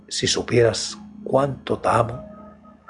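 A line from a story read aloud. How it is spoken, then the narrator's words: Low soft voice. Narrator (Spanish): le dije en voz baja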